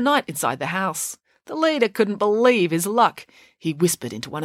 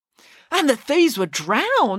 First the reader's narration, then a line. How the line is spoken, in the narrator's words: exclaimed Michael